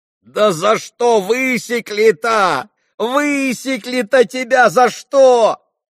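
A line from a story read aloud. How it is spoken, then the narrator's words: Loud wailing yell. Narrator (Russian): вопил Колганов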